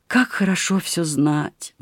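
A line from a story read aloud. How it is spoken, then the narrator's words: Sighing. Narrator (Russian): вздохнула княгиня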